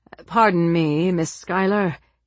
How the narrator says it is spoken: he said hesitantly

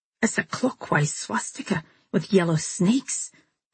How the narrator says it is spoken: Harrison said in a stunned voice

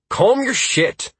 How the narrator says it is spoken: I snapped at the rogue

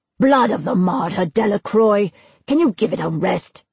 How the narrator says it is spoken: his father's unmistakable bass rumble

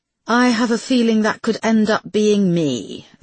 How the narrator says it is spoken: observed Rachel dryly

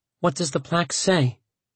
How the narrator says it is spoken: She asked softly

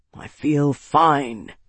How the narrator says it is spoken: he growled

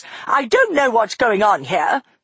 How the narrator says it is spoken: she snapped at Capricorn

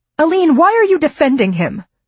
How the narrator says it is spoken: Fran snapped

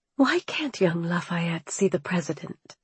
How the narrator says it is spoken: I whispered

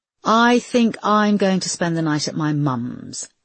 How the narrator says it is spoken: she said firmly

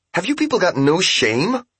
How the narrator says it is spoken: cried

